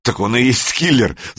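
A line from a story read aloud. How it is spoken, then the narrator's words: Laughing. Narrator (Russian): засмеялся Санек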